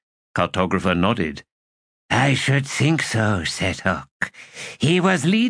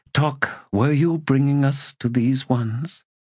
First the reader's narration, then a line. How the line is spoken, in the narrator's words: She sighed